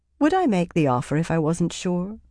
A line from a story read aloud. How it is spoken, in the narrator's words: She said dryly, surprised at how calm she sounded